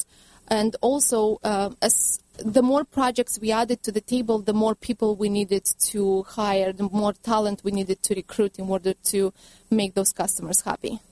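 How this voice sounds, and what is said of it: Romanian accent. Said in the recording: “I detect in your accent that you're not from the United States originally ... I'm from Romania originally.”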